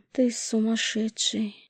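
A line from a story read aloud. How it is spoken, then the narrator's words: Exhausted breathless. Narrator (Russian): выдохнула обессиленно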